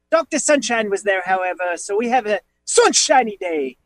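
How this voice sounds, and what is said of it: Put-on British accent. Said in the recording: “I have a British accent for some reason”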